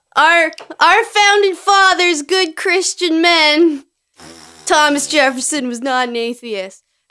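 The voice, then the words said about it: Imitates another person's voice. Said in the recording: “I can be my dad ... We'll do an accent at least ... do a voice ... Let me get in character.”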